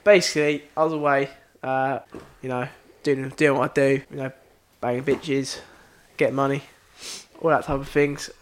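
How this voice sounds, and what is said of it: Exaggerated put-on accent. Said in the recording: “Outrageous accent.”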